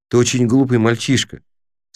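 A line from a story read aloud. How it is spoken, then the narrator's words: Calm. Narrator (Russian): спокойно сказал Крис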